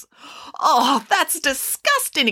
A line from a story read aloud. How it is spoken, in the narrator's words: exclaimed the children